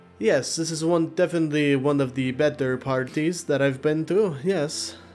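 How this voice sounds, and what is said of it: Character voice with an accent. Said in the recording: “here you thought you were getting away from this accent”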